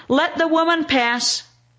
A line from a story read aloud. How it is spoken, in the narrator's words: He takes pity on her, and he shouts